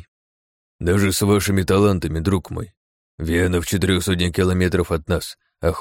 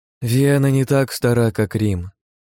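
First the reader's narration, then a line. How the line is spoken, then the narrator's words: Sigh. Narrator (Russian): вздохнула Хельга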